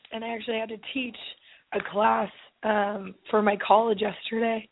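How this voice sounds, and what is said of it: Hoarse, strained voice. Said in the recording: “I have lost my voice ... yesterday, my voice was way worse”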